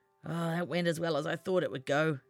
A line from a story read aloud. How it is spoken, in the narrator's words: he grumbled to himself